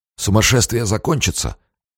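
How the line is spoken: Hoarse. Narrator (Russian): хрипло сказал он

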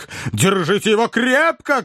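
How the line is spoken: Shouting. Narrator (Russian): кричал мистер Снотграсс

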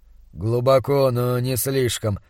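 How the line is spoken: Grumbled. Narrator (Russian): пробурчал он

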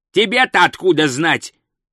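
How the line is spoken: Growling. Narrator (Russian): зарычал он

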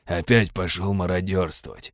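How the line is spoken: Grumbling mutter. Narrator (Russian): буркнул адмирал

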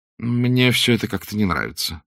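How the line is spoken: Gloomy. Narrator (Russian): сказал он уныло

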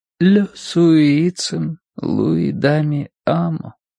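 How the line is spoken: Barely audible. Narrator (Russian): проговорила она едва слышно

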